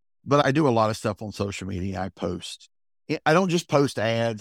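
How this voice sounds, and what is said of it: High-pitched Southern accent. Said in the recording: “my high-pitched Southern accent”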